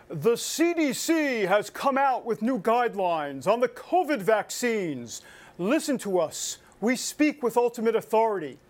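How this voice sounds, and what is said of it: Booming godlike voice. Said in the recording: “Maybe I should do this in a godlike voice ... my best godlike impression.”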